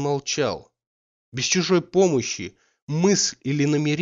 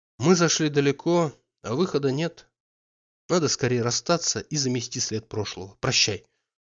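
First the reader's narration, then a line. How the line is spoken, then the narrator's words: Dry, bitter. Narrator (Russian): Сухо, с горечью, прибавила она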